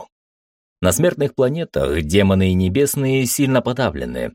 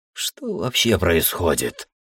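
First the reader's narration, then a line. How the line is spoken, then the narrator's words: Mumbling. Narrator (Russian): пробормотал я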